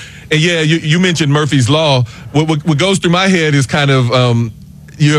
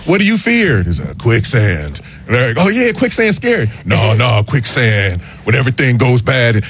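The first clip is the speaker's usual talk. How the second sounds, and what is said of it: Imitates another person's voice. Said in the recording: “that's my Keanu Reeves impression... You know, like, you know, it's good. I was digging it.”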